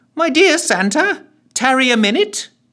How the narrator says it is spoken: he called out, in the most jovial tone he could muster

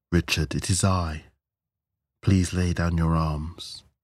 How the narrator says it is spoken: the robed man said calmly

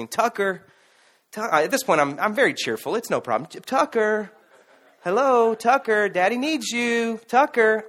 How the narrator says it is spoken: I just said, you know, kind of quietly, not trying to make a scene

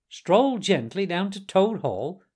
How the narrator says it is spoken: cried the rat, greatly excited

